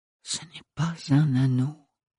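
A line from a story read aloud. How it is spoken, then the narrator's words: Murmured to herself. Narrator (French): murmura-t-elle pour elle-même plus que pour les autres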